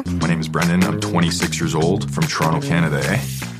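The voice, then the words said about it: Strong Canadian accent. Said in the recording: “strong as hell Canadian accent”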